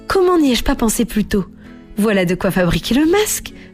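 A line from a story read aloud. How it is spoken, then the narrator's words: Exclaimed. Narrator (French): s'exclama Natacha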